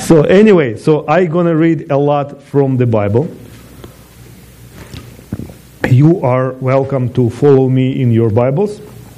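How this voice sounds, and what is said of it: Non-native accent in English. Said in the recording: “main languages are Russian, that's my mother tongue, Hebrew, my second language, and English, my third language ... I have an accent ... in every single language I speak, I have an accent”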